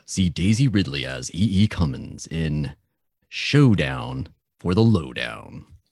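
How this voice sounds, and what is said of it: Dramatic movie-trailer voiceover voice. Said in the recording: “That's a really good voice. You should do that voiceover voice.”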